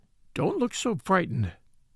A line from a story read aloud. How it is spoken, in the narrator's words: he said, in a worried voice